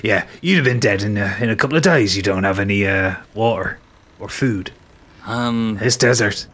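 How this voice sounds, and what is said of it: Pirate character voice. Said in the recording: “his accent is slipping as well. I can't maintain a West Coast accent ... I'd be getting me pirate voice back.”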